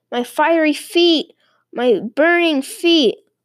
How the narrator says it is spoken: he heard DeFeo screaming

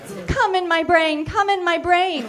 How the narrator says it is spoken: Marcy screams in delight

